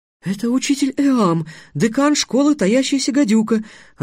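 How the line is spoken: Joyful exclamation. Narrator (Russian): радостно воскликнула Тиана

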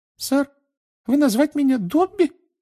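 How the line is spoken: Curious squeak, muffled. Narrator (Russian): с любопытством пискнул эльф между пальцев

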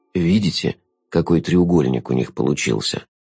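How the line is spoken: Velvety voice. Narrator (Russian): бархатным голосом заметил Шут

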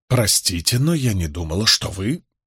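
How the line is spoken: Smiling mutter. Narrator (Russian): она с улыбкой бормоча

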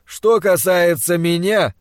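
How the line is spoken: Resonant voice. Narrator (Russian): сказал своим звучным голосом Пельт

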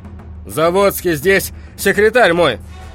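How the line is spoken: Shouting. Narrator (Russian): крикнул

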